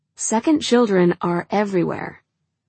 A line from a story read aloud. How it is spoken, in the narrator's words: he says